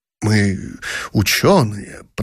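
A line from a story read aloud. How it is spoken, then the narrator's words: Relieved mutter. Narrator (Russian): пробормотал князь, радуясь, что все кончилось благополучно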